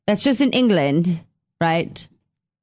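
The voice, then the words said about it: Horrible put-on English accent. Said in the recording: “that horrible accent”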